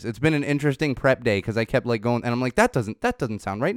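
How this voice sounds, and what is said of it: Slightly nasal, congested voice. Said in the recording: “I'm sure you can hear it in my voice. I'm still a little nasally.”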